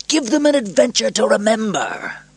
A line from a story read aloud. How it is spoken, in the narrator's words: Proximo shouted above the noise